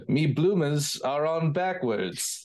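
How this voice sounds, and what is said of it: Convincing put-on English accent. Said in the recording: “It's a better English accent than mine. More convincing anyway.”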